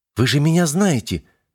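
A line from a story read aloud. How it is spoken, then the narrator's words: Bewildered. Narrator (Russian): растерянно произнесла Юля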